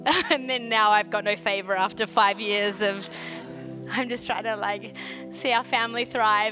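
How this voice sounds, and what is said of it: Australian accent. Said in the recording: “there's a favor on my accent ... I still sound so Aussie”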